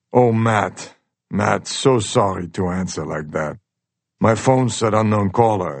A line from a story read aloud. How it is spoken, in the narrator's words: the tone of his voice changes, and he says